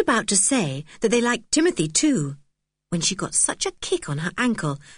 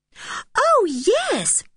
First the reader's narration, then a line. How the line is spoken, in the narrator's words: said Anne eagerly, anxious to stick up for her strange cousin